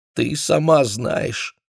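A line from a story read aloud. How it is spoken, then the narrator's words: Answering through tears. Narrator (Russian): сквозь слезы отвечала Кармен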